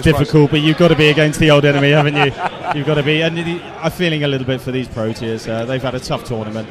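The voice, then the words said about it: English accent. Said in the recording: “That is an English accent, I believe it is.”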